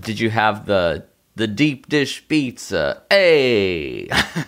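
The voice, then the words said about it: Bad New York Italian accent. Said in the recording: “That's not what people in Chicago sound like, man. That's like a bad New York Italian accent, but you did it for Chicago.”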